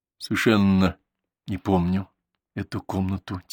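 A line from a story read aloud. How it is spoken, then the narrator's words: Quiet. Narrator (Russian): тихо сказал Зван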